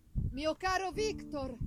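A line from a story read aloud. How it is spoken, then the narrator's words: Shout. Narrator (Italian): gridò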